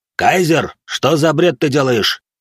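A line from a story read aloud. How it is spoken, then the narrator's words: Shouted, coach. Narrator (Russian): крикнул тренер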